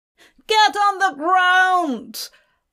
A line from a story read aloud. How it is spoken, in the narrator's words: the guard yelled thuggishly